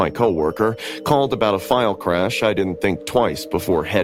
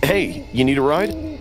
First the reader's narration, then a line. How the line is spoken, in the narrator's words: I called out